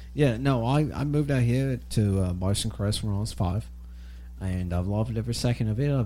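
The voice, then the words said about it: Australian accent. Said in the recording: “your accent made me think otherwise ... Australia, maybe?”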